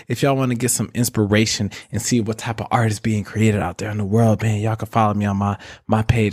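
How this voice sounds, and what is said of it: Smooth jazz radio DJ voice. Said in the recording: “I don't know how I turned into this jazz radio voice that I got going on”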